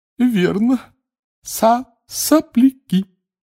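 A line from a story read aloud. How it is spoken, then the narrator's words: Giggling. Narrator (Russian): Хихикнула полная дама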